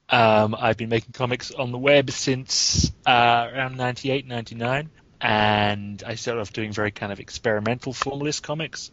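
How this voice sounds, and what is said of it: English accent. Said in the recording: “I'm a comics creator in England, as you can probably tell from my accent.”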